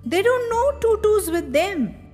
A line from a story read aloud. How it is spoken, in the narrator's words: I exclaimed